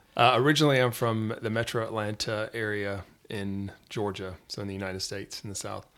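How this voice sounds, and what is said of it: American Southern accent. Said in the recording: “has not got the same accent as myself and Matt”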